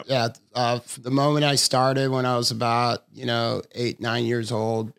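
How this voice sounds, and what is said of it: Southern California surfer accent. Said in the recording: “You're a quintessential Southern California surfer boy. I can hear it in your accent.”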